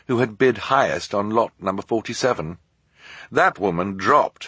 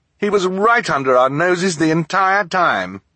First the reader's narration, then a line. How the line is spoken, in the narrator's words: turned to sneer